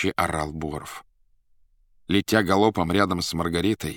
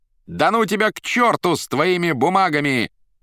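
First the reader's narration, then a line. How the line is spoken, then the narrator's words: Defiant laughing shout. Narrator (Russian): дерзко хохоча кричала Наташа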